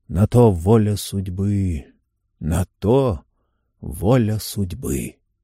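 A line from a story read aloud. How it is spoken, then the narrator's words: Dazed mutter. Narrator (Russian): В своем сумеречном состоянии Фрэнк пробормотал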